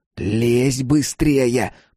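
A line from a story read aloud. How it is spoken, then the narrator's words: Hissed. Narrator (Russian): прошипел Джим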